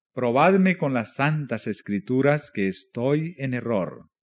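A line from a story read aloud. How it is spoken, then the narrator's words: Plain. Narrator (Spanish): dijo él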